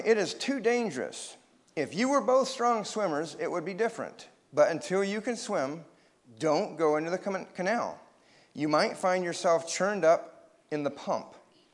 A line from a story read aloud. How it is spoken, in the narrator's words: said grandmother firmly